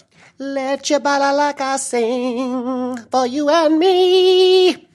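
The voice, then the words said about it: Sung imitation of a rock singer. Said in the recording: “Terrible Klaus Meine impression from the Scorpions”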